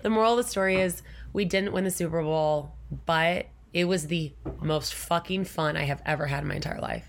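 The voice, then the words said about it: Hoarse, lost voice. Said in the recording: “I still don't have my voice back ... You told me I sound sexy, though ... you still have the podcast voice”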